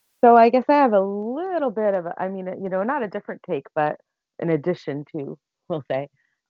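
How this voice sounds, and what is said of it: American accent. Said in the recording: “by my accent, you can tell I'm originally American.”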